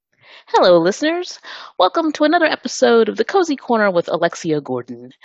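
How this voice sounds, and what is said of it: Polished radio voice. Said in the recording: “You have a terrific radio voice.”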